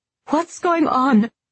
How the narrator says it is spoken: Her words were split by gasps

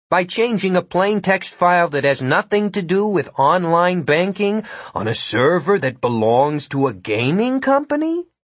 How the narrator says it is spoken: Jimmy asked calmly

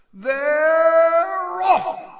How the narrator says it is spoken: screamed Bagman

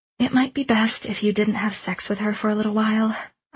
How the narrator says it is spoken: sighed

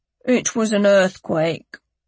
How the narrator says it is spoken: Lyle said flatly

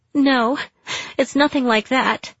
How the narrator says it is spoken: I cried

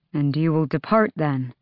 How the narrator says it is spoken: Dorian asked, smiling a bit sadly

